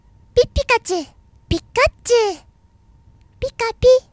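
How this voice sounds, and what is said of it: Imitates Pikachu's cartoon voice. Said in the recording (Japanese): “尊敬している声優さんのモノマネをします ... その2、ピカチュウ”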